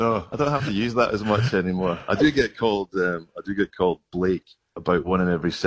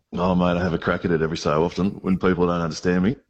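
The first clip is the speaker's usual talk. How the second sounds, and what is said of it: Put-on Australian accent. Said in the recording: “you do an Australian accent very well ... Mate, that is Russell Crowe.”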